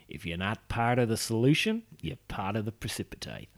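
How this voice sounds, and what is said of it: Put-on Australian accent. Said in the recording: “I don't know why I'm doing that in an Australian accent”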